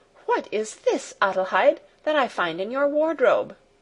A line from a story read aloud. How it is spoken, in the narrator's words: she exclaimed